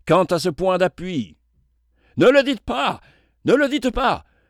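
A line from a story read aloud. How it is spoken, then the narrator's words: Thunderous voice. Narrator (French): s'écria un des assistants d'une voix formidable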